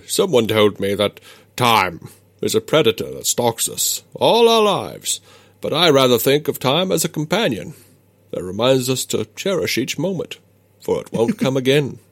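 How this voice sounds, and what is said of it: Picard impression. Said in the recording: “Good accent. ... No, it's terrible.”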